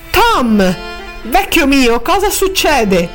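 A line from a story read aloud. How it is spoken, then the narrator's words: Exclamation. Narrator (Italian): esclamò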